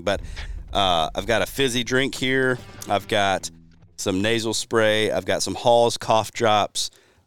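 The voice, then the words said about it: Sick-sounding, strained voice. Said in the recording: “I'm a little under the weather... My voice is not great”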